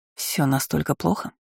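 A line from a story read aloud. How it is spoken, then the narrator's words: Forced sympathy. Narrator (Russian): Я выдавила из себя всевозможное сочувствие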